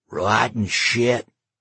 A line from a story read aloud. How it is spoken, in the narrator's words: the drunk growled